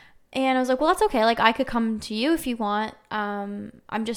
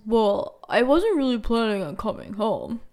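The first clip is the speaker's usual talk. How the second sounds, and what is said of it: Imitates another person's voice. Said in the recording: “That's my best impersonation of his voice. That's actually not what he sounds like, but that's how I imagine him sounding like now.”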